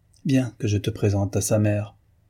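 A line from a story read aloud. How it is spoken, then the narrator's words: Curt reply. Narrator (French): répondit Jacques d'une voix brève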